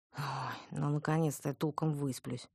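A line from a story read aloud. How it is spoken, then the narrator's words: Gloomy. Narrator (Russian): мрачно сказала я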